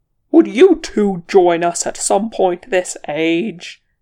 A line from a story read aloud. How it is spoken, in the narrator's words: Gandalf roared, battling with two wargs at once